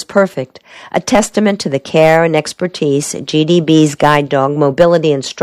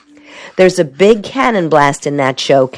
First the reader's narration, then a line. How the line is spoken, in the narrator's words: Carol laughs